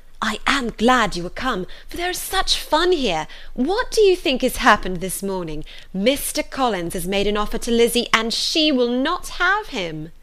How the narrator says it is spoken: Lydia cried in a half-whisper

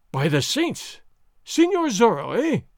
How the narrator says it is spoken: Gonzalez cried

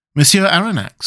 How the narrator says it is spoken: said he

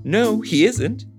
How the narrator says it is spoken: she said very sweetly

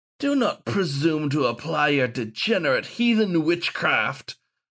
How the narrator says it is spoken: sneered the wolfhound only Gawain could see

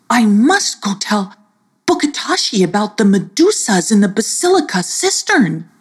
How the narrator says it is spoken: he exclaimed

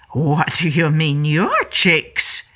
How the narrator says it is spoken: Mama Lion growled

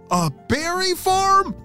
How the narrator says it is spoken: shouted Hunter

